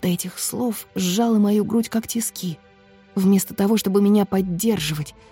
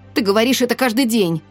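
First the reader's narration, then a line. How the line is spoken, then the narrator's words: Snapping retort. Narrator (Russian): огрызнулась я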